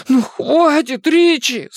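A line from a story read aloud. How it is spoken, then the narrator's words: Strained wheeze. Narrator (Russian): сумел просипеть он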